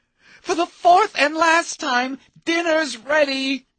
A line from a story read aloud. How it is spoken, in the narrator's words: Sherry hated to scream